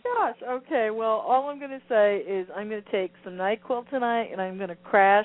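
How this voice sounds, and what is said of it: Congested, nasal voice. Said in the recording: “your nasal congestion”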